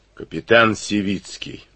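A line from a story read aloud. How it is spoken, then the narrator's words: Hoarse. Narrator (Russian): хрипло назвал он себя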